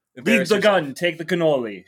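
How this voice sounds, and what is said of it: Poor imitation of a movie gangster. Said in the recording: “I know I'm horrible at impersonation... I'm really bad at it... Yeah, see, it's bad. It was really horrible... You could have put some effort into it.”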